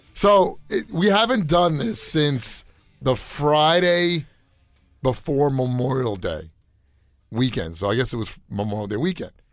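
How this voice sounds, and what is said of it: Voice not fully recovered. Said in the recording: “my voice is still not back to 100% ... my voice will sound like this for a couple of weeks”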